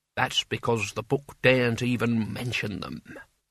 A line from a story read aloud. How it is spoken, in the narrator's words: whispered Albert